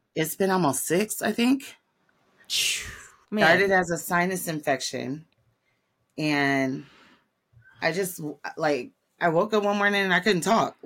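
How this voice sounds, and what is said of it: Hoarse, strained voice. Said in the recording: “You have been fighting some gnarly laryngitis.”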